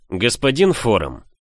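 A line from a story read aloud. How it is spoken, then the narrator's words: Booming voice. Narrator (Russian): прогремела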